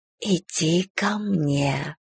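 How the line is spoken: Languid whisper. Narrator (Russian): томно прошептала я

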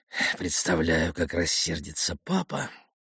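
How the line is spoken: Worried mutter. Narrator (Russian): озабоченно пробормотал он

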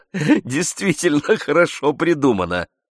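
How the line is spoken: Laughing remark. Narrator (Russian): заметил, смеясь, Ламоль

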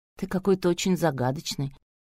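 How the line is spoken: Muttering. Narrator (Russian): пробормотала Митрофанова

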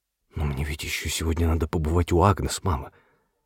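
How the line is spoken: Reproachful whisper. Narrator (Russian): шепнул он укоризненно, словно объясняя свою торопливость

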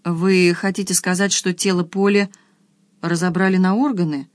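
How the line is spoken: Dazed mumble. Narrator (Russian): пробормотала, чувствуя легкое головокружение

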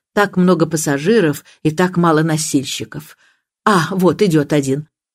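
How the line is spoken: Commanding tone. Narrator (Russian): Она повелительным тоном подозвала его

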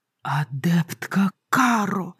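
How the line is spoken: Hissed. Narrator (Russian): прошипела куратор

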